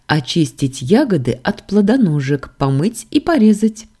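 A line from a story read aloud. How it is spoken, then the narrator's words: Speaking through laughter. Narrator (Russian): сквозь смех поведала Лорану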